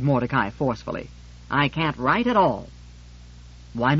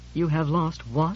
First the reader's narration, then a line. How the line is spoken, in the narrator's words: I asked faintly